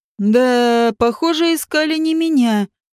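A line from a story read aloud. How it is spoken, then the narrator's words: Snide drawl. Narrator (Russian): ехидно протянул Вааш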